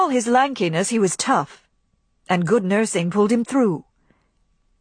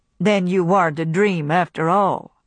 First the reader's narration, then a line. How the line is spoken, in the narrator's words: he said, in his flat, toneless voice